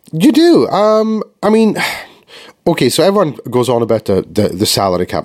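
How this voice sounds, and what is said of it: Deep congested voice from cold. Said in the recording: “I've got a bit of a cold, so I'm sounding a little bit um, like I should be doing voiceovers or something like that ... a lot more gravitas in the voice today ... I don't usually speak like this, it's usually much more effeminate and high pitched”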